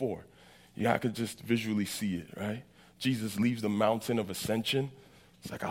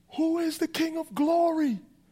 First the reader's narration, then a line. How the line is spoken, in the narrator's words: they yell it out not because they don't know, but because they love to hear the answer